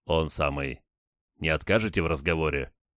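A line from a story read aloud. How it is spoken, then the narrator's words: Sarcastic. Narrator (Russian): Он саркастически хмыкнул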